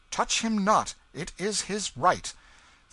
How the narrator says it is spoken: His Majesty's attention, who stretched forth his hand and cried out

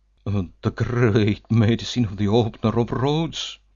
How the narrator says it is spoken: he exclaimed

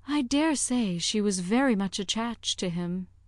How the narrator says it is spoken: returned Harriet, sighing again

